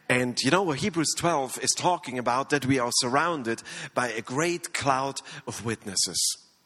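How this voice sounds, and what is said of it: Strong non-native English accent. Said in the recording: “this bad accent”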